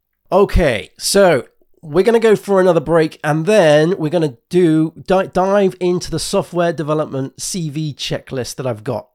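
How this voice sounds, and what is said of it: Voice rough from a cold. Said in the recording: “my throat is, as you can probably tell, I've got a bit of a cold.”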